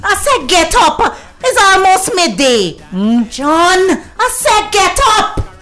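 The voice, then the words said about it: Screaming, shouting loudly. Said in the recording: “you're screaming in my ears ... Why you got to shout for the neighbors here?”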